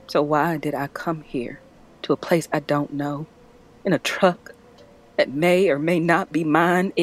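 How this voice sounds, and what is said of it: Non-local accent. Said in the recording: “Judging by your accent, not local, no.”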